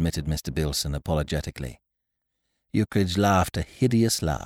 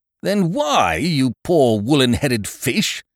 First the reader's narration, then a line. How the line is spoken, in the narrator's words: bellowed Eucridge, exploding